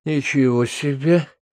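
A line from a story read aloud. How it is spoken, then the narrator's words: Mutter. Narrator (Russian): пробормотал он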